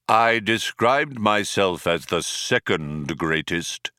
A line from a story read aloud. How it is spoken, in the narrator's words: intoned Deep Thought